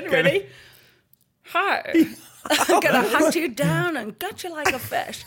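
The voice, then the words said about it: Grinch character voice. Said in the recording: “do a really good Grinch impression.”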